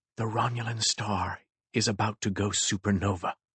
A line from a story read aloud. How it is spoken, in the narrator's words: she whispered